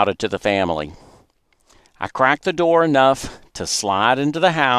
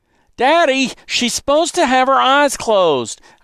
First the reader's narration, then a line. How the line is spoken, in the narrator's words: I shouted